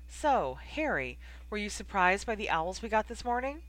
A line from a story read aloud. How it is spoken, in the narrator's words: asked brightly